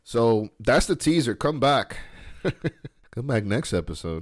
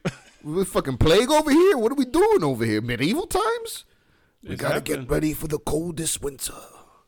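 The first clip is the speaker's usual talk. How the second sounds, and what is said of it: Jokey funny voice. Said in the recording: “I'm making light of it in that funny voice”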